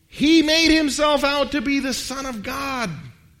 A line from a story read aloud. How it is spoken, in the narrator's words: the Jewish leaders yelled out